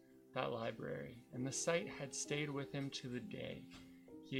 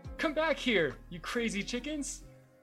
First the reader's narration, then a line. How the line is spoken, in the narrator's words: the boy shouted, exasperated